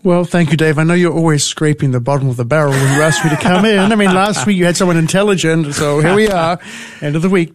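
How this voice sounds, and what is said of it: New Zealand accent. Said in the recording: “that awesome accent of yours ... It's New Zealand.”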